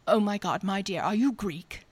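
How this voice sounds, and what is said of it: Imitated woman's accent. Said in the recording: “a good accent.”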